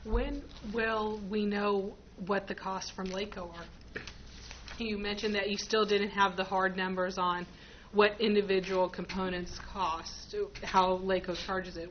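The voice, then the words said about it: Strained, fading voice. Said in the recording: “my voice is going out.”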